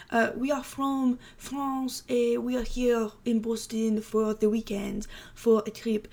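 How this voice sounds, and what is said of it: Put-on French accent. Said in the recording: “I can't do a French accent ... oh, maybe I can.”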